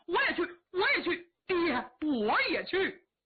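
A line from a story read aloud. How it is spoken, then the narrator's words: Shouting together. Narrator (Chinese): 紧跟着都喊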